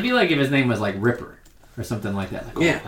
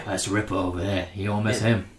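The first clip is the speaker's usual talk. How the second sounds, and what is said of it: Put-on British accent. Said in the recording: “I squeezed my British accent in there.”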